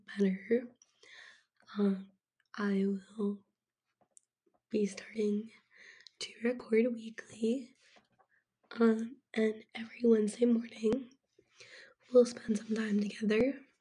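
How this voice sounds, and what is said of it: Voice affected by recent illness. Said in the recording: “apologize for my voice right now. So, I'm currently recovering from being sick”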